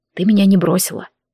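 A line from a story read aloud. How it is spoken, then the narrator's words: Quiet speech. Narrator (Russian): проговорил негромко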